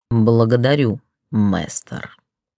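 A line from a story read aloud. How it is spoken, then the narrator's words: Echoing half-growl. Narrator (Russian): Ответное полурычание эхом разнеслось по залу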